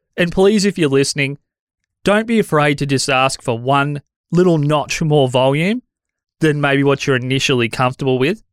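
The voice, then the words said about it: Worn-out, deteriorating voice. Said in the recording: “I'm still recovering from COVID, so my voice is turning to trash.”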